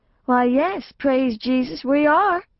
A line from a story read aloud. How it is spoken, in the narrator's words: Mama said sweetly